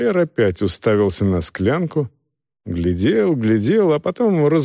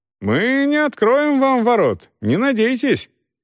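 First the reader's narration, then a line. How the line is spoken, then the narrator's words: Shouting. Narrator (Russian): один из них крикнул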